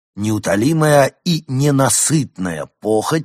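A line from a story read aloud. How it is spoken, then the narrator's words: Plain. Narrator (Russian): сказал он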